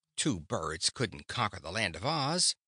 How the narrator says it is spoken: asserted scornfully

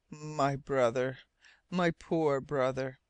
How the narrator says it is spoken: When Captain Len Guy could speak, he murmured

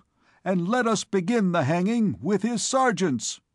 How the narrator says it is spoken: cried the people

